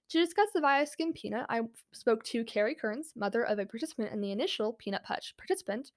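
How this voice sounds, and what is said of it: Speaking very fast. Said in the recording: “I'm talking really fast”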